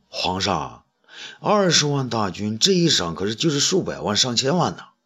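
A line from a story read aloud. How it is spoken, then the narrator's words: Quiet voice. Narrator (Chinese): 东方朔小声说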